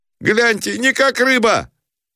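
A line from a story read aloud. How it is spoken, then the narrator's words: Shouting. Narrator (Russian): закричал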